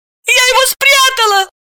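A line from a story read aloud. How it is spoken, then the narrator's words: Pleading shout. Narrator (Russian): крикнула Настя и взмолилась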